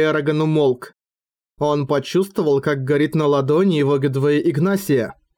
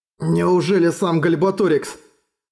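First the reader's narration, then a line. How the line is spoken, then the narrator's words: Frightened thought. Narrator (Russian): Испуганно подумал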